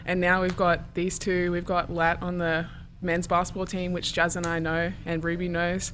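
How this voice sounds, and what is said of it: Australian accent. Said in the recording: “your accent? ... I was like almost one of the only Australians coming here”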